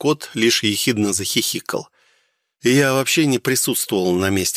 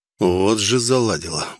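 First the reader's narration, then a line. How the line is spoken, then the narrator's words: Muttered under breath. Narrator (Russian): буркнул я себе под нос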